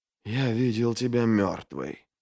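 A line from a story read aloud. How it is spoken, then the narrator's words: Whisper. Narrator (Russian): прошептал Бояс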